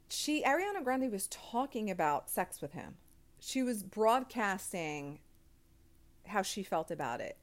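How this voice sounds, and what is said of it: Noticeable natural accent. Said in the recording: “you heard my accent coming out? I try to curb it, but sometimes it just comes out. It's too natural”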